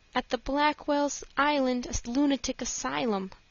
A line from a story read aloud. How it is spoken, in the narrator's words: she answered sadly